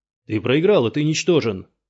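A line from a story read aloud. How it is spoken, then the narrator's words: Shout. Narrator (Russian): кричал Юругу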